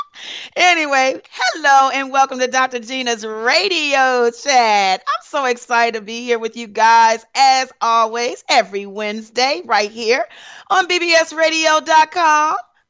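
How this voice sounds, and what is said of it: Raspy, hoarse voice. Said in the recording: “What is going on with my raspy voice?”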